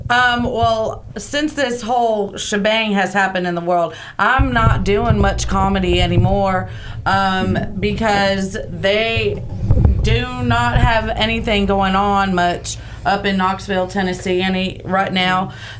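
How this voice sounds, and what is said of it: Noticeable regional accent. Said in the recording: “you got that accent going”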